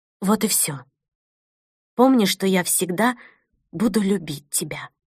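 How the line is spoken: Quietly added. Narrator (Russian): тихо добавила

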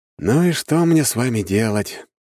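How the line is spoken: Sighing. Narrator (Russian): вздохнул я

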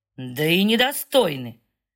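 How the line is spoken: Vicious near-growl. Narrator (Russian): Гард практически рычит, злобно и жестоко

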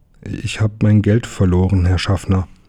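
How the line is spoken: Plain. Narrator (German): antwortete Emil

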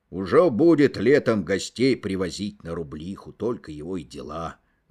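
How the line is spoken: Jealous grumbling, old man. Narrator (Russian): ворчал старик, ревновавший свою шахту к каждому постороннему глазу

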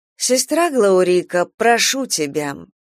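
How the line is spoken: Bored voice. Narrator (Russian): скучным голосом сказала Хароу

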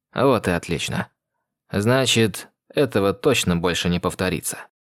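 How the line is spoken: Calm. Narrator (Russian): произнес спокойно

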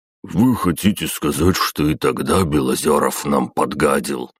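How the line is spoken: Surprised deep bass. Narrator (Russian): удивленно пробасил князь Юсупов

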